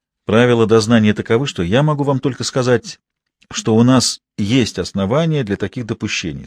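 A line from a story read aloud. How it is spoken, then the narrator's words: Plain. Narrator (Russian): сказал я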